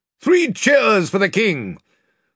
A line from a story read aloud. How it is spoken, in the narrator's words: Byrne immediately cried